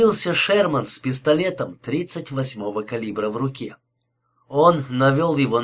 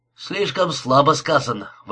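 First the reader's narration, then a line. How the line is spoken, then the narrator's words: Male exclamation from armchair. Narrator (Russian): воскликнул Эд со своего кресла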